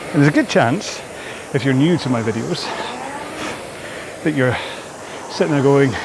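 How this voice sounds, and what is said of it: Scottish accent. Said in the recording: “Probably not in a Scottish accent though”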